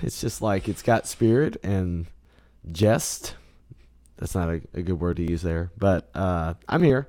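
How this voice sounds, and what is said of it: Hoarse, froggy worn-out voice. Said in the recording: “He's just a little froggy ... My voice is used. It's like a used car right now.”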